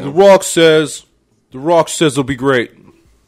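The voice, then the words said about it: Imitates another person's voice. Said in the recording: “Was that your Trump Rock? ... That was my impression of when, you know, his song used to hit ... It sounded like a mix between the Trump”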